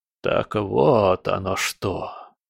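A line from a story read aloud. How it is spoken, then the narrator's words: Mumbling. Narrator (Russian): пробормотал он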